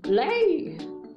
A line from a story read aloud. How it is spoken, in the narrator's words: shouted